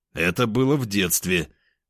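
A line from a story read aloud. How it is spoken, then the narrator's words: Objecting. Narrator (Russian): возразил я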